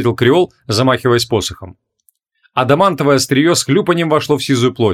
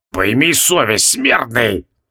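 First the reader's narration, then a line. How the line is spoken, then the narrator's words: Hissed. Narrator (Russian): зашипел на него Нерлатхотеп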